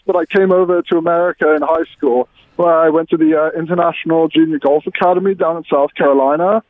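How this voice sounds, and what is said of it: English accent. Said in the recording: “I could tell a little bit by your accent that you're not from New Jersey ... I'm from England originally. Grew up in London.”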